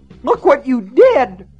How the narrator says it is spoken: Myra shrieked

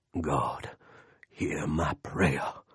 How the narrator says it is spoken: Lester said in his growly, I'm really praying voice

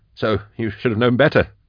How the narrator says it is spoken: he laughed

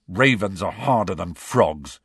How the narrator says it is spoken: said Ron testily

